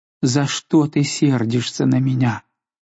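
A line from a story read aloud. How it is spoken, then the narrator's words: Tearful moan. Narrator (Russian): она простонала, заливаясь слезами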